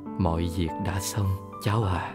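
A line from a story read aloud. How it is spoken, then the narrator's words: Low sad voice. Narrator (Vietnamese): Bà giọng trầm buồn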